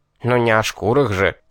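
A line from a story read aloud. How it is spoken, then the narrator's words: Indignant snort. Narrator (Russian): негодующе фыркнул рогатый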